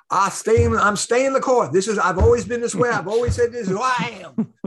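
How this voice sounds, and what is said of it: Put-on Southern accent. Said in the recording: “Forgive my using the Southern accent.”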